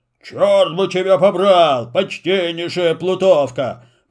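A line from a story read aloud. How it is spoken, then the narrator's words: Grumbling. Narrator (Russian): проворчал Карабас-Барабас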